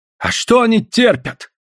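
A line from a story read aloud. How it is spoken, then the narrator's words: Angry old man's reply. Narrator (Russian): отвечал старик зло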